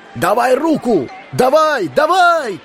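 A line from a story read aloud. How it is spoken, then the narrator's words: Shouting voices. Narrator (Russian): кричали они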